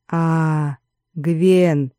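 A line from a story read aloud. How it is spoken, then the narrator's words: No hissing in voice. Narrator (Russian): В голосе тоже не было ничего от вчерашнего шипения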